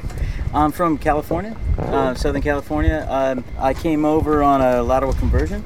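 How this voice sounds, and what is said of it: American accent. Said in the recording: “there's something unique here that we're hearing, and it's called an accent”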